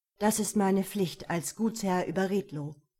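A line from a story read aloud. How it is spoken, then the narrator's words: Calm. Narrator (German): sagte er ruhig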